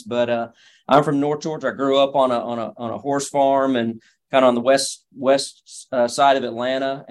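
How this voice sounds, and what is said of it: Slight Georgia Southern drawl. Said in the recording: “a little bit of a draw in your voice. So Georgia native ... my accent betrays that in many settings”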